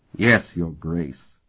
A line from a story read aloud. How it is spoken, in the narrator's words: Sparhawk replied through clenched teeth